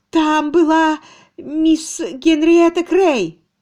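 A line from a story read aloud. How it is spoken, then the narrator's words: Breathless trembling voice. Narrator (Russian): Она задержала дыхание и, наконец, дрожащим голосом сказала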